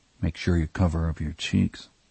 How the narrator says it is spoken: Vernon muttered to Eddie

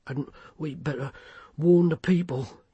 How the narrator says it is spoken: he panted

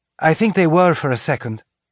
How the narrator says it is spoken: Anna said after the gasp of pain Tilly's touch brought

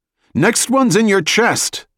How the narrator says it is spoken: Jack shouted

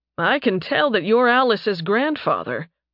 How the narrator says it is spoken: Nathan said dryly

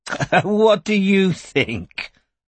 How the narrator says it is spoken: laughed Ursula, as though the question was too naive for words

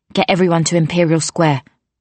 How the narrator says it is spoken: she said

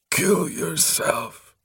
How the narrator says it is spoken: rasped terribly

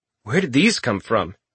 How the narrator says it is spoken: Richter asked

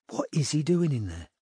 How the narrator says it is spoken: Robin asked quietly

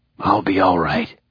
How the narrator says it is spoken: he whispered

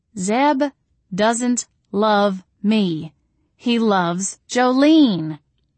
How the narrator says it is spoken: I said in a slow, deliberate tone one might use with someone who is very dim or slightly drunk, or both

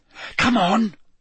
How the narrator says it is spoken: Parvati hissed

